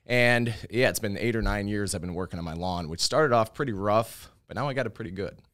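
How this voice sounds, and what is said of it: Chicago accent. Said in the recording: “I can tell by your accent you grew up in Chicago”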